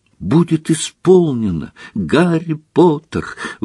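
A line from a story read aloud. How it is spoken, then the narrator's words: Excited exclamation. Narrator (Russian): воскликнул Добби, глаза его взволнованно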